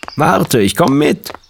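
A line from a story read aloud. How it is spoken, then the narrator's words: Father calling. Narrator (German): rief Vater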